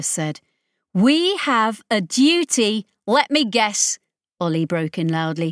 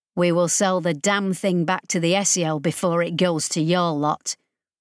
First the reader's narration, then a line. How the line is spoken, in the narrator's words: Ollie said flatly